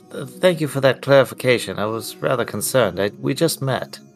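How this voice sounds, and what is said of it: British-sounding accent. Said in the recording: “You have an accent. It's a cool accent. We get to hear Cheerio all the time.”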